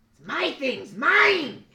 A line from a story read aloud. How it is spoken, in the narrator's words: screams at you and says